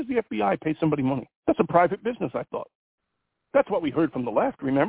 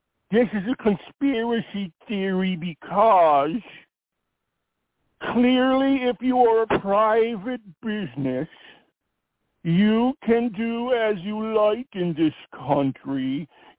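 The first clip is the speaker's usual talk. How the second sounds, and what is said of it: Mocking impression of a leftist. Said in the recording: “let me do my left voice.”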